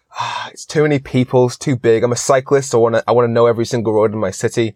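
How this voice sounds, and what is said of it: Mixed British and American accent. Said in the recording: “that accent? ... they think I'm British, and British people think I'm American, so I guess I'm Atlantic”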